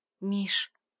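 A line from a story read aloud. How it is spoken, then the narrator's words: Soft call. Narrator (Russian): тихонько позвала любимого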